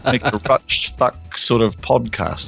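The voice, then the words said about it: Put-on New Zealand accent. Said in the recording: “do an entire podcast in a Kiwi accent ... Kiwi accent.”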